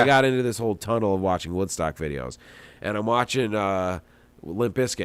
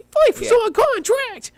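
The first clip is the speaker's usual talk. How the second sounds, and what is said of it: High-pitched imitation of a singer. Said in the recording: “would do that high voice”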